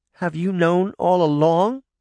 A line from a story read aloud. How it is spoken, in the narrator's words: Sabrina said, her voice trembling with anger and hurt